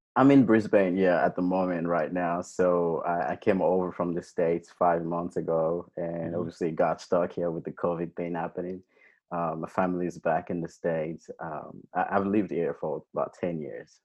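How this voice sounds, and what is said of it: Mixed American and Australian accent. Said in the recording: “I can hear that sometimes the accent's kicking in... I have this mix of accents”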